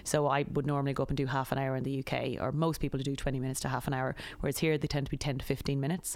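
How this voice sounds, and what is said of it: Irish accent. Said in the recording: “as soon as I go out and start speaking my accent, everybody knows just a few cultural norms that comes with being Irish”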